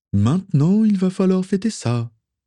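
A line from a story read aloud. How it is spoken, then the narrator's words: Sighed. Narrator (French): soupira Justin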